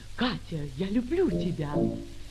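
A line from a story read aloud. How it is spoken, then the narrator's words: Very soft whisper. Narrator (Russian): он шепнул ей тихо-тихо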